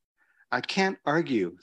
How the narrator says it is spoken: says the monk

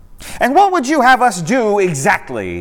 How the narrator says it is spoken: interrupted, crying out in a loud voice

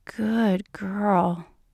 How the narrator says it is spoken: he murmurs

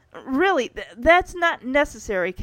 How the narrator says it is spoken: Kevin tells as his voice cracks

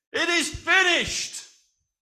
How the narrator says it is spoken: Jesus cried out again in a loud voice

